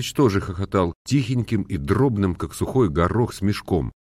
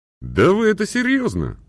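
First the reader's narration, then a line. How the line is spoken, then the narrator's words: Asked laughing. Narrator (Russian): спросил Антон Иванович, смеявшись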